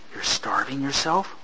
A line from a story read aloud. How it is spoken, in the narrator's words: Poro breathed